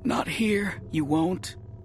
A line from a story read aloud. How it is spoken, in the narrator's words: we gasped